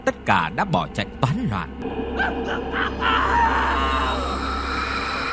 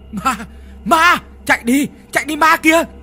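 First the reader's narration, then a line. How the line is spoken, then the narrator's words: Terrified screaming in unison. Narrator (Vietnamese): Mặt ai mặt nấy đều tái xanh như tàu lá chuối, đồng thanh đều hét lên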